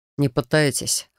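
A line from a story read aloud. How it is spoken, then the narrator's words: Snort. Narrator (Russian): хмыкнул Яр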